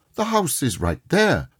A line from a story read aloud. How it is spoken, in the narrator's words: Scrooge exclaimed